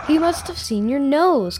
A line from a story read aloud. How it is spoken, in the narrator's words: cried Hermie